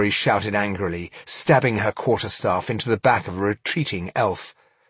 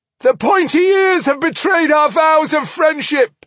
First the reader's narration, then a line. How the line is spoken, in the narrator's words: howled the dwarf, voice cracking with grief and rage